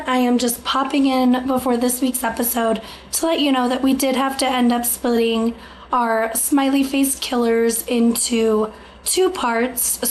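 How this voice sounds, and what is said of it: Slightly strained, sick-sounding voice. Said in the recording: “I've been sick, so my voice is going a little bit”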